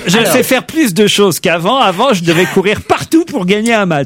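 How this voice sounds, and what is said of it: Spanish-accented French, Rafael Nadal impression. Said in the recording (French): “Avec l'accent, vas-y. ... ça sent l'espagnol. ... Nadal, Rafael Nadal. ... vous avez reconnu mon imitation”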